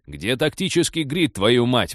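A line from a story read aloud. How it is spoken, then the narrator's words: Shouted. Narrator (Russian): прокричал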